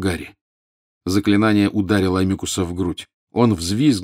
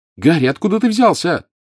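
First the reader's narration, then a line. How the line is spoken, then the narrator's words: Shouting. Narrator (Russian): крикнула Джинни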